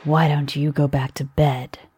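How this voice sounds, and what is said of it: Soft voice. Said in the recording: “in his soft voice,”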